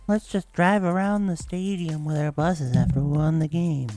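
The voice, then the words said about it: Imitates another person's voice. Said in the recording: “That was a really good John Gruden impression.”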